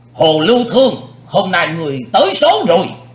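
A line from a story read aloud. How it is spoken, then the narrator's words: Loud shout. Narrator (Vietnamese): Lão cục tài hét lớn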